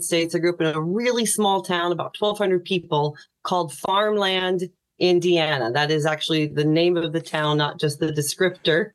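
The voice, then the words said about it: American accent. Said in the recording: “you can hear this accent is American”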